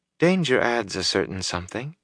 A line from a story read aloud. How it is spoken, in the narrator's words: she said softly